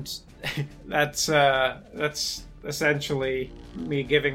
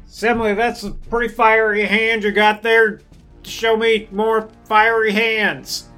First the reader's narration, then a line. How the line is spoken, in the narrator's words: I would yell over to Semele